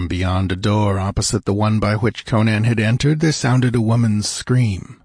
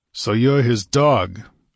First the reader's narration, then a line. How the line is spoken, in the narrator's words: grunted Conan